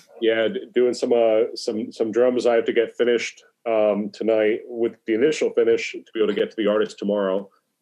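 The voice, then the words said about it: Slightly sniffly, congested voice. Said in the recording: “I'm also fighting off a cold. ... I can hear that in your voice a little bit. You sound a little sniffly.”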